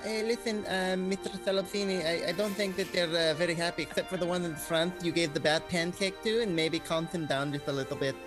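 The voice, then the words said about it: Mixed Russian-Swedish-Spanish put-on accent. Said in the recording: “This is my Russian-Swedish, I got a Castilian-Spanish accent all in one. This is what it evolved into.”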